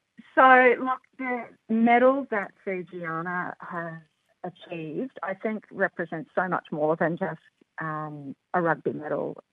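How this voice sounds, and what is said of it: Australian accent. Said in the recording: “you'll hear from my accent that I'm Australian born and bred”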